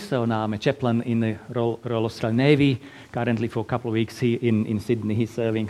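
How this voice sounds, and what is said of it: Slovak Eastern European accent. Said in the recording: “originally from little tiny little country in Eastern Europe, Slovakia. So that's why my lovely accent.”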